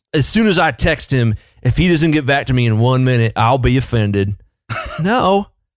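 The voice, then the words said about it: Put-on Southern accent. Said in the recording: “a southern accent? ... that's the official accent of boomers everywhere”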